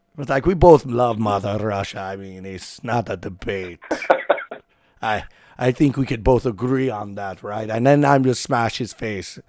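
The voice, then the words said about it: Put-on Russian accent. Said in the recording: “I don't know if that's a good Russian accent. Probably not... That was perfect... Who's this Russian on the line?”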